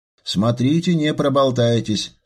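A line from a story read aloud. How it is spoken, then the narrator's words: Stern. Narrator (Russian): строго напомнил Дронго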